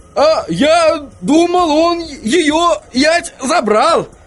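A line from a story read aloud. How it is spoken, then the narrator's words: Hopeful exclamation. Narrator (Russian): воскликнул господин Тюльпан, и лицо его озарилось надеждой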